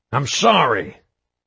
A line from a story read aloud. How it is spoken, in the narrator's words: Hoffman yelled